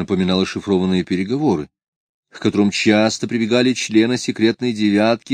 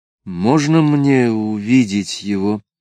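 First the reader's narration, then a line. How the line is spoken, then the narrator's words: Strained, forced out. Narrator (Russian): выдавил он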